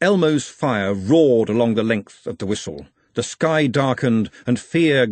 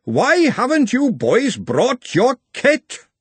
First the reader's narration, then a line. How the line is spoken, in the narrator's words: he roared